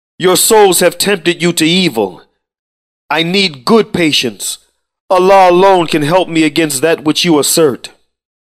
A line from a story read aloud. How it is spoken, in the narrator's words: cried